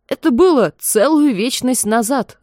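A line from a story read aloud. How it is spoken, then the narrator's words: Yelling. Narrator (Russian): завопил Хьюк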